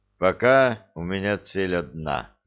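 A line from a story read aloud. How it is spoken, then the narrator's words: Heavy sigh. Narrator (Russian): тяжело вздохнул император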